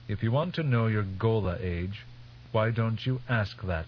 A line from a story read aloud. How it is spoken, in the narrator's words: His voice coldly accusing, Teg said